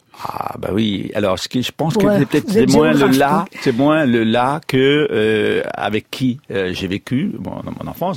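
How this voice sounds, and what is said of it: Slight eastern French regional accent. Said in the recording (French): “Un petit accent quand même, non ? ... Un petit accent, voilà, entre la France de l'Est et la Suisse, oui. Donc, Franche-Comté”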